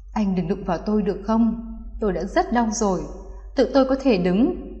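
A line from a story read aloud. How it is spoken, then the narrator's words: Trembling, pained, dazed woman. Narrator (Vietnamese): Thân thể cô khẽ run, trong mông lung bất tỉnh và cơn đau quặn ở bụng, giọng cô run run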